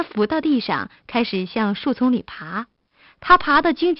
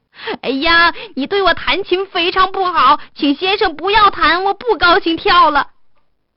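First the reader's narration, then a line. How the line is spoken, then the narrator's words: Shouting. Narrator (Chinese): 犹太人叫道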